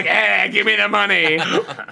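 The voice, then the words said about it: Imitates another person's voice. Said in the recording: “your Bobby impression?”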